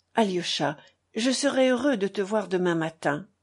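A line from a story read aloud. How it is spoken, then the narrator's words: Unexpectedly kind tone. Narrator (French): dit Ivan d'un ton aimable auquel Alyosha ne s'attendait pas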